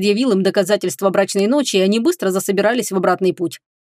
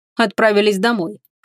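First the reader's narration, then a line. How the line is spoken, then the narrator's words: Dragon's snort. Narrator (Russian): фыркнул дракон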